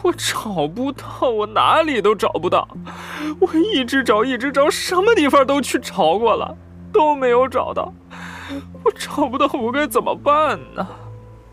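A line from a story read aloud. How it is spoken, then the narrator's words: Sobbing, breaking down. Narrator (Chinese): 他像是崩溃了，边哭边说道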